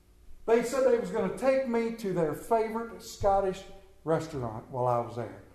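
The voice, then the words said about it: Central Maryland accent. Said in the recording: “my Central Maryland accent”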